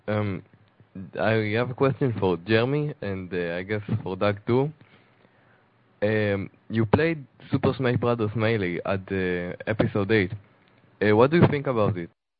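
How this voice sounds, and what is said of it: Speaks with a noticeable accent. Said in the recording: “I love your accent. I don't know where you're from, but that's really cool.”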